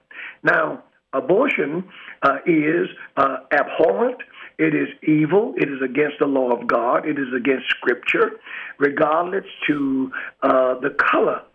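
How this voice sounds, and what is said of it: African-American dialect and speech pattern. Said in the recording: “As an African-American minister ... they can probably tell by my dialect and my speech pattern”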